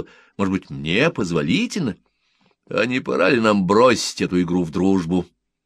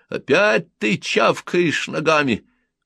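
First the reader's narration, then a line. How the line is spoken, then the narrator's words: Shout. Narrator (Russian): крикнул Румфорд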